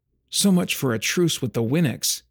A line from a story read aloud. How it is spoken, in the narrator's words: Kendallin muttered